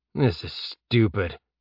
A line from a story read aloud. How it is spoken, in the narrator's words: Jeb muttered to himself